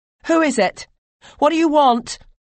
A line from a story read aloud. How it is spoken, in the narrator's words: shouted